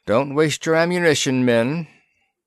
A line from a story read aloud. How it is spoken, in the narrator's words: Captain Smith called out